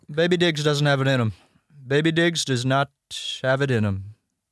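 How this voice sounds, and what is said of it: Impression of a public figure. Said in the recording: “It's a good impression.”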